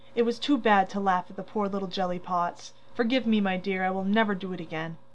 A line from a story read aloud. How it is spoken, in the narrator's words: saying tenderly